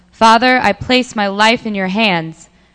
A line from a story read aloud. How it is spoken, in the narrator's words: Jesus called loudly